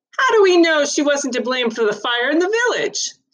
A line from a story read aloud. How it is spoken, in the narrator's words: someone else shouted